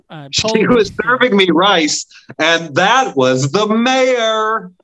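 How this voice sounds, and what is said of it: Imitates another person's voice. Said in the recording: “If I may ape Andy Kindler for this joke ... That's my Andy Kindler impression. ... That's a good Andy Kindler impression.”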